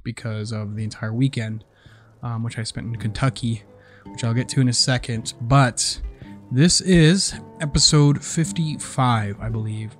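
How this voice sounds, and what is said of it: Sore, slightly raspy voice. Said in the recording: “my voice is sore ... my voice is a little bit raspy”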